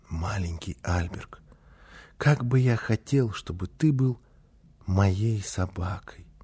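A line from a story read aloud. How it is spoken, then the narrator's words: Soft secret whisper. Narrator (Russian): тихонько, так, чтобы мама не слышала, зашептал ему на ухо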